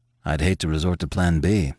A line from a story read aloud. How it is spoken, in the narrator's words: he grumbled